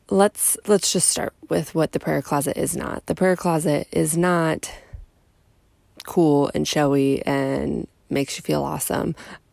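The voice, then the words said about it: Voice sounds a little weird. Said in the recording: “my voice sounds a little weird”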